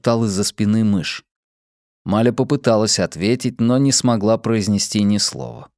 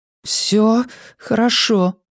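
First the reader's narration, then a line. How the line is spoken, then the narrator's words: Strained, forced out. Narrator (Russian): выдавила она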